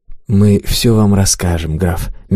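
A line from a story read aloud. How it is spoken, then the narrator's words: Soft, gentle. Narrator (Russian): мягко сказал Монброн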